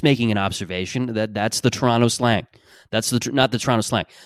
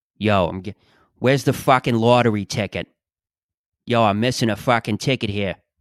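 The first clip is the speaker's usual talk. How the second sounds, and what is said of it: Put-on Toronto accent. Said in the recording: “Just that hard Croatian Italian ... the Toronto accent ... That's the Toronto equivalent”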